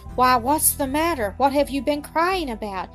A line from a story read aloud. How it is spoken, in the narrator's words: she asked in a tone of kindly concern